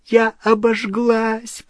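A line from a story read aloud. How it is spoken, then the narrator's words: Moaned in pain. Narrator (Russian): простонала Гермиона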